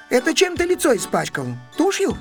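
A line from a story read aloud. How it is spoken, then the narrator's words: Plain question. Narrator (Russian): спросила она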